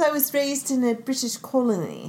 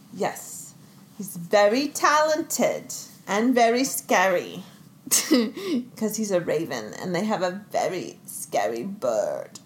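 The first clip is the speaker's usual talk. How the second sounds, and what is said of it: Good put-on British accent. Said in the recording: “how Mom can do that good of a British accent”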